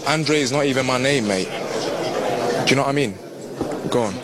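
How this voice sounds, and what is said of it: Strong London British accent. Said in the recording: “London accent. Basically, it's just like British, hardcore British accent.”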